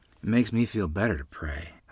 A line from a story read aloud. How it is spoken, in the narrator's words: I said absently, my voice trailing off